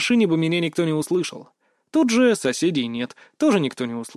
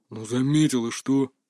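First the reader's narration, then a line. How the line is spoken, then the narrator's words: Displeased grumble. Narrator (Russian): недовольно буркнул его собеседник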